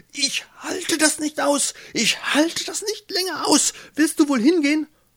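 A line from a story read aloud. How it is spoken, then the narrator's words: Shouting. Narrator (German): Ilsebill schrie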